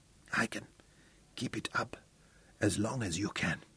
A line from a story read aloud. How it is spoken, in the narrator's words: Tungata whispered huskily